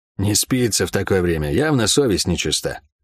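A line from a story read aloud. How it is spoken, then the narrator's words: Muttered. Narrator (Russian): пробормотал Гаррет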